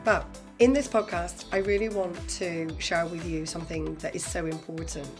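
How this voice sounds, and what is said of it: Hoarse, nearly lost voice. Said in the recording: “my voice has definitely gone ... sore throats to colds ... I've definitely been suffering ... even with my voice like this”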